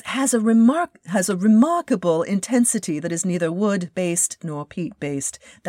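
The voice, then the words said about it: Bad fake English accent. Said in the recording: “That's my very bad phony English accent.”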